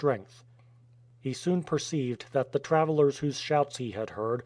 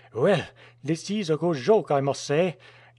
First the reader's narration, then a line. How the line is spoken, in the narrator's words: This was said in a very angry tone, but was suddenly interrupted by a burst of laughter from his companion